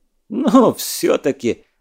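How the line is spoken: Laughing. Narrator (Russian): засмеялся Патрик

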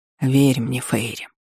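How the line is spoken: Soundless whisper. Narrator (Russian): беззвучно прошептал

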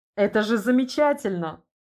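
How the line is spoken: Laughing. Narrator (Russian): рассмеялся тот в ответ

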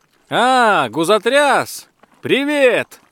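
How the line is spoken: Shouted. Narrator (Russian): крикнул граф

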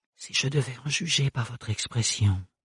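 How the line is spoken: Eventual murmur. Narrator (French): finit par murmurer le baron Melchior

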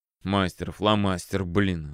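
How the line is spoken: Irritated mutter. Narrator (Russian): раздраженно буркнул Палыч

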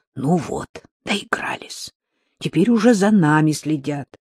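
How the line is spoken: Low voice. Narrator (Russian): Рита вполголоса сказала ей

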